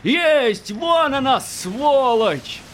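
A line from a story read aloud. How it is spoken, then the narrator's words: Joyful ringing shout. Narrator (Russian): Вяхерь крикнул радостно, звонко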